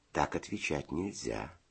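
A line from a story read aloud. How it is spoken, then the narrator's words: Gentle explanation. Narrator (Russian): ласково объяснил Федя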